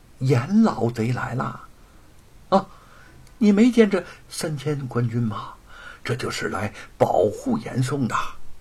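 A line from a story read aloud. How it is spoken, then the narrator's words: Hushed whisper. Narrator (Chinese): 旁边的人压低声音 小声的说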